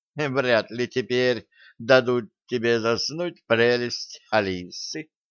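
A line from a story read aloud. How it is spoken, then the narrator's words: Giggling. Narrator (Russian): хихикнула Нола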